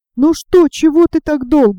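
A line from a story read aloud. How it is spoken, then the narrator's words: Shouted. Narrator (Russian): закричал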